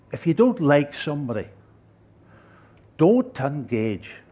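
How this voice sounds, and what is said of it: Imitated Sligo accent. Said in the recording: “That Sligo accent.”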